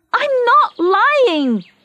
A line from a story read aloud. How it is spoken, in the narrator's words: Teresa shouted